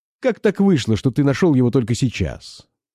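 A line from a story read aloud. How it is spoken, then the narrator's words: Sharp question. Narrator (Russian): спросил он резко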